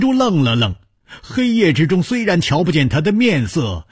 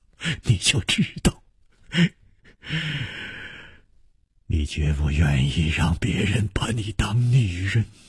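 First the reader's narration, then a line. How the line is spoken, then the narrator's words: Laughing. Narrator (Chinese): 楚留香笑着说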